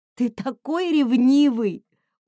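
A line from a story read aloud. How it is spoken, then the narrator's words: Squeezed out between laughs. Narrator (Russian): удалось мне выдавить из себя между приступами смеха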